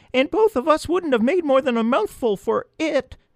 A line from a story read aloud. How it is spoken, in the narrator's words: chirped the other